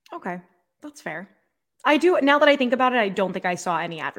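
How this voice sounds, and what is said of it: Usual voice. Nothing is said of it.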